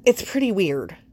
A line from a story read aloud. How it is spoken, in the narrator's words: Clark blurts